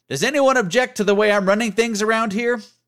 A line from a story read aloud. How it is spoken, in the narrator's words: one of our drill instructors, who regularly shouted loud and vulgar things, yelling out